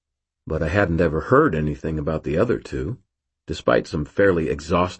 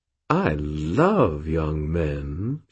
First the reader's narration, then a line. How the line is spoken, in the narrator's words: she purred